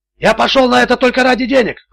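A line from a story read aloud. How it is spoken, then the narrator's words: Shouting. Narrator (Russian): кричал Милошевич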